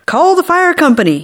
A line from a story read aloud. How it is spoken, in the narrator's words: hollered